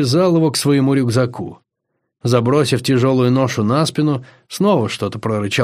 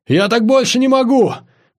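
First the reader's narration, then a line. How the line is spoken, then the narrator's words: Shouted. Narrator (Russian): крикнул Андрюха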